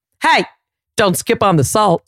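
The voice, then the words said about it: Put-on southern twang. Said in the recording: “I'd still have a little southern twang.”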